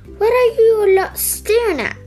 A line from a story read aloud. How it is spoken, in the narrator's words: snapped